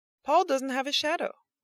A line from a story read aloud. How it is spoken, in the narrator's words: yelled Cassie to her friends